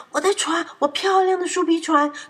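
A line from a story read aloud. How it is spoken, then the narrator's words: Terrified shout. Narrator (Chinese): 玻璃惊恐的大叫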